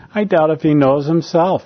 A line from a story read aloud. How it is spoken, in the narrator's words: he replied